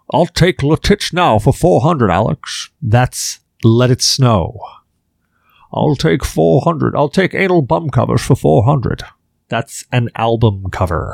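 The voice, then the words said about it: Bad imitation of another person's voice. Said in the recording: “doing a bad impression of Sean Connery”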